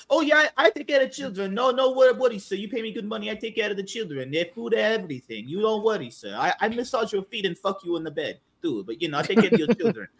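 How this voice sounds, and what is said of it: Put-on European accent. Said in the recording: “They would have a European accent.”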